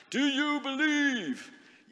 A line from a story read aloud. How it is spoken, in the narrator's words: he shouts